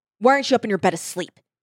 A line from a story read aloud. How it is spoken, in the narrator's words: He snapped